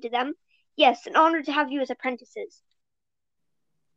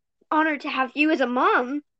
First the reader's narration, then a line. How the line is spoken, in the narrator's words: Mint Kit purred